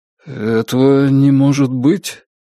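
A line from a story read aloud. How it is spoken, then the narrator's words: Uncertain officer. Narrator (Russian): как-то неуверенно произнес старший офицер Риона лейтенант Исаков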